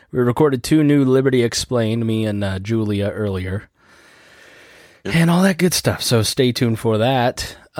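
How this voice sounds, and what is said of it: Weak, sick-sounding voice. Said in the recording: “my voice sounds weak... I definitely feel like I'm sick... So if I sound weak”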